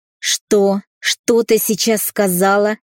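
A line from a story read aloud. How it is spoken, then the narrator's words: Growled. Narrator (Russian): прорычал отец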